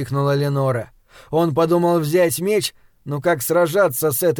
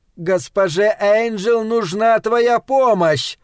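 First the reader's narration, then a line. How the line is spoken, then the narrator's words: Shout. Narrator (Russian): прокричала Ленора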